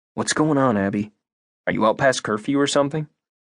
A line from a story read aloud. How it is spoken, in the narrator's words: She laughed quietly